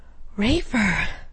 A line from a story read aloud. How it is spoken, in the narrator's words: She gasped, her eyes widening in shock